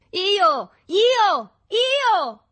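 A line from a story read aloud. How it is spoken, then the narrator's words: Boys shouting together. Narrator (Italian): gridarono tutti insieme i ragazzi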